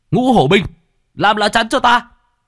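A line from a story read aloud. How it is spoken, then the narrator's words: Shout. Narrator (Vietnamese): Bạch Hổ liền hét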